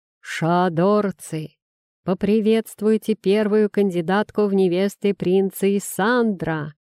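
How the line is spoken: Magically amplified booming male voice. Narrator (Russian): Усиленный магией мужской голос прогремел над площадью

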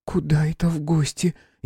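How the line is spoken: Frightened question. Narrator (Russian): испуганно спросила Настя

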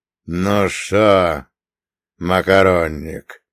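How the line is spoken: Drawled. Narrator (Russian): протянул он

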